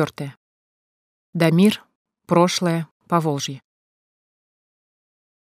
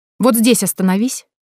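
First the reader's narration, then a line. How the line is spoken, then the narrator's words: Female shout. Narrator (Russian): крикнула Эля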